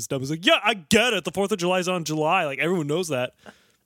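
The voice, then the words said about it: Imitates another person's voice. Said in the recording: “That's my Patrice Wilson impression.”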